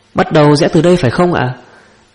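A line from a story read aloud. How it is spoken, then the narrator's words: Loud question. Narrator (Vietnamese): Anh ta lớn tiếng hỏi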